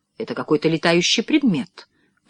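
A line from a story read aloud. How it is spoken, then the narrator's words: Whisper. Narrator (Russian): прошептал, наконец, Джордж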